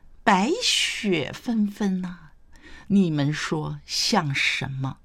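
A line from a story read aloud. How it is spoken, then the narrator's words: Smiling question. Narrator (Chinese): 谢安微笑问道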